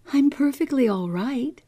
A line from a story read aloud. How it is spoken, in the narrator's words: said, laughed back